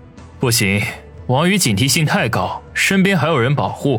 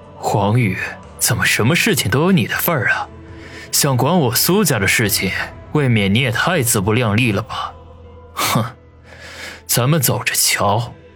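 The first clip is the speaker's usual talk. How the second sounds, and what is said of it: Quiet muttering to himself. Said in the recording (Chinese): “小声的自语”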